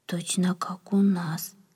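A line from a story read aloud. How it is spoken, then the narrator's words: Whisper. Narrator (Russian): прошептал кто-то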